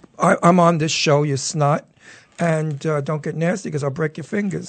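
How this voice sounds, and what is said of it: Tough-guy accent. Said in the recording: “Listen to that accent.”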